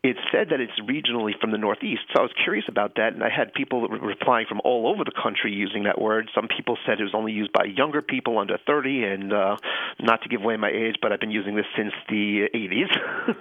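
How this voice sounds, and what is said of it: Slight Long Island New York accent. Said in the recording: “Grew up in Long Island, New York... you can hear the accent... A little bit, yeah.”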